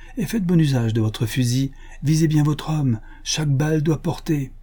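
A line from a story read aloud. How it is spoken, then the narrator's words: Exclaimed. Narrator (French): s'écria Buffalo Bill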